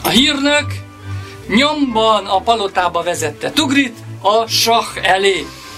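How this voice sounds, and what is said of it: Usual voice. Nothing is said of it.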